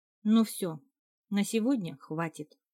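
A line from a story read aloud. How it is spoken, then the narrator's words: Tired. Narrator (Russian): устало произнесла я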